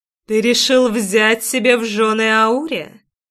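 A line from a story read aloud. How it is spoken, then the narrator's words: Musical babbling-brook voice, asking. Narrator (Russian): Необычайно музыкальным голосом, похожим на журчание ручейка, спросил он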